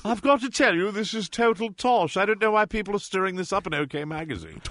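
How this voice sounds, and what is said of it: Put-on accent. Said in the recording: “Hold that accent.”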